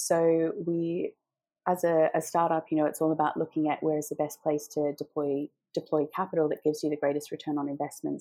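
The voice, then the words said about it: Australian accent. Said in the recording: “in Australia, which is where I'm from. You've probably picked up from the accent already”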